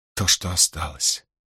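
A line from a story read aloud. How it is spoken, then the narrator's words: Near whisper. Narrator (Russian): повторила она почти шепотом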